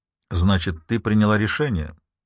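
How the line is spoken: Cold question. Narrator (Russian): спросил Майло холодно

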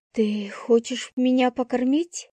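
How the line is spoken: Breathy exhale. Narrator (Russian): выдохнула я

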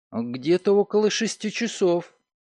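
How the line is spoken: Uncertain. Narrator (Russian): Амалия задумалась, после чего неуверенно сказала

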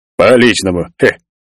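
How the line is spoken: Snorting big man. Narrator (Russian): фыркнул здоровяк

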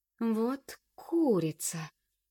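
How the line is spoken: Drawling to herself. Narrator (Russian): протянула про себя

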